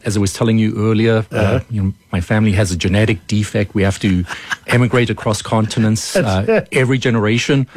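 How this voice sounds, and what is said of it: South African accent. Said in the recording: “the accent normally gives people some cognitive dissonance... a South African accent”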